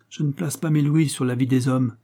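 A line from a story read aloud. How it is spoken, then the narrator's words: Marquis's curt reply. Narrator (French): répondit sèchement le marquis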